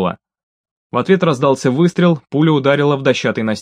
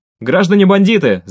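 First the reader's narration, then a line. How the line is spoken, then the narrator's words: Shouting. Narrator (Russian): закричал Микола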